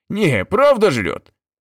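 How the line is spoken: Exclaiming, laughing trucker. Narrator (Russian): воскликнул дальнобой и засмеялся

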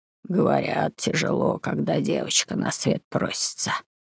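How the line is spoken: Hoarse reply. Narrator (Russian): отозвался хриплым голосом сосед Джозеф

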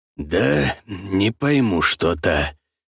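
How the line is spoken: Gloomy reply. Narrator (Russian): мрачно отозвался тот

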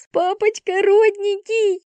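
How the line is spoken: Yelling through laughter. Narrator (Russian): вопит Вика сквозь смех

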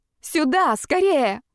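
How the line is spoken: Breathless yell. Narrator (Russian): заорала я, немного успев отдышаться

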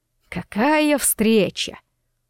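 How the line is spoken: Mocking. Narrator (Russian): насмешливо произнес Ирвин

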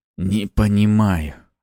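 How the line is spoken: Strained, pained. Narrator (Russian): выдавил из себя Ариста, когда боль отпустила

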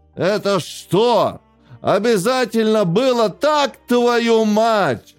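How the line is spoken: Angry shouting. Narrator (Russian): кричал он на калькулятор

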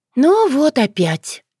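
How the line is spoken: Resigned sigh. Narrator (Russian): вздохнула яга, с обреченным видом

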